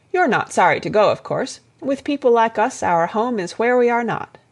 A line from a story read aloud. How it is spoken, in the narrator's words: said Monsignor